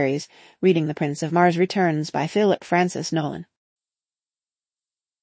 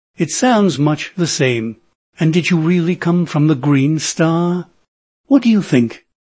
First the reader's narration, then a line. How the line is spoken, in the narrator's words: snapped